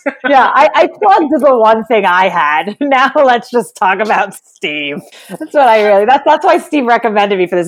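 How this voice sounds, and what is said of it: New York Jewish accent. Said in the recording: “your accent, we can tell... it just gets Jewier. Like everyone's like, is that a New York accent? I'm like, it's just Jewish.”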